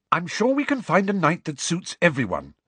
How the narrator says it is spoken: said Hermione slightly impatiently

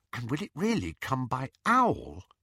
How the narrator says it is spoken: Lily whispered

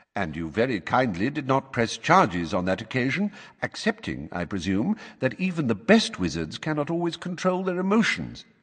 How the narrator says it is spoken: said calmly

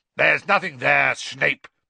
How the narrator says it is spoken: barked Moody

